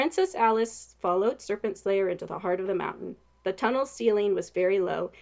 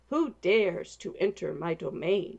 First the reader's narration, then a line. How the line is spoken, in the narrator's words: growled